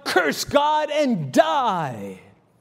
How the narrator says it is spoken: she cried out

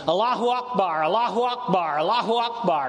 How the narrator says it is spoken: a man in the back began shouting

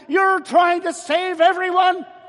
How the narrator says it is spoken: he yelled this time

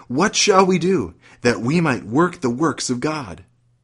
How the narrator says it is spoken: They exclaimed

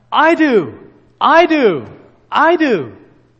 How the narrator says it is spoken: this gospel worker, this old man, sat up in his sleep, and he cried out

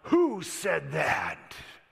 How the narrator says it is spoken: Khrushchev was probably a bit taken back at that moment, but he roared out

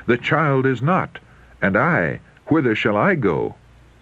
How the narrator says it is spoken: In alarm and self-reproach, he rent his garments and sought his brothers, exclaiming

